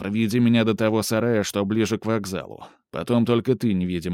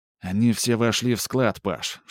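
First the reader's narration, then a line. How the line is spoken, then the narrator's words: Whisper from above. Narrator (Russian): шепнул сверху Антон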